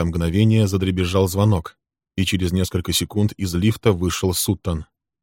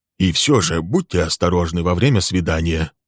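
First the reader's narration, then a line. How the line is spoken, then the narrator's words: Whispered in ear. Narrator (Russian): Шепнул ему на ухо Билл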